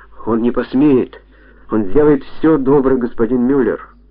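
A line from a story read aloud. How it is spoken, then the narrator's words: Woman's exclamation. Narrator (Russian): Женщина воскликнула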